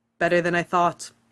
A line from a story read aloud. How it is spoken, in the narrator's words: Ronan says